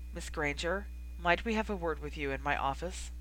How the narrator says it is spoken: Professor McGonagall's throat seemed to catch as she said quietly

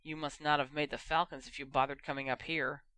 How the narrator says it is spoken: Harry seethed and muttered under his breath

